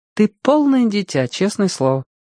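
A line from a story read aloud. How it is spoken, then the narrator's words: Sad statement. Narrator (Russian): грустно сообщила Алена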